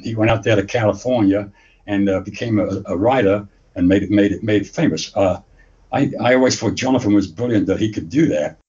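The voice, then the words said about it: English accent, not Indiana. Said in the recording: “that accent is not Indiana ... I was actually born in England, in a little shithole town in England called Luton”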